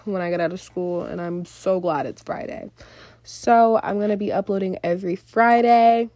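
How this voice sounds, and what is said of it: Congested, nasal voice. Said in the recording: “I am congested because I have allergies... sorry about my voice. It don't always sound like this.”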